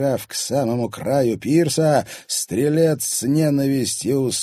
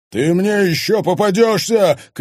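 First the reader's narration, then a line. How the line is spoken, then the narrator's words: Capricorn shouting. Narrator (Russian): крикнул козерог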